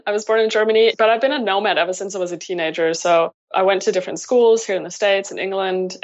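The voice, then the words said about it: German accent. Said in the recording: “There's an accent... Definitely an accent... So I'm German.”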